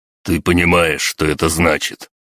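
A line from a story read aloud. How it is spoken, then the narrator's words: Menacing growl. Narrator (Russian): С угрозой прорычал тот, что был лыс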